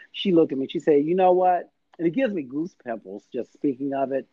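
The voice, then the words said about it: Birmingham regional accent. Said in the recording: “she heard my accent just as you did ... I'm from Birmingham”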